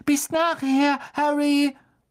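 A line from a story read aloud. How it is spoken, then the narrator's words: Squeaking. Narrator (German): Sie hörten ihn noch quieken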